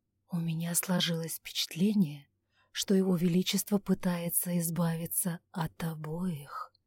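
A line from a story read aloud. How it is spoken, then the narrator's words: Whispered aside. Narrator (Russian): шепотом добавил он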